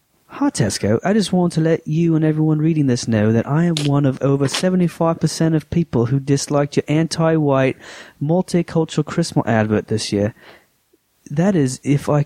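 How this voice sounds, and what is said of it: Put-on British accent, sounding Australian. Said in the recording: “This is a British lady. ... I'm not going to do an accent for it ... That's sounding more Australian, right?”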